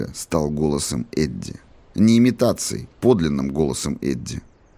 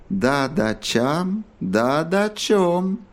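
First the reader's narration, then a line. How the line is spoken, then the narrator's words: Singsong chant. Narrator (Russian): нараспев произнес Кинг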